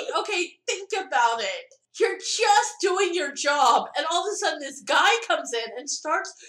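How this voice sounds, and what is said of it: Usual voice. Nothing is said of it.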